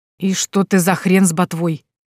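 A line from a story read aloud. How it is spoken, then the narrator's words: Shocked hoarse woman. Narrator (Russian): прохрипела шокированная женщина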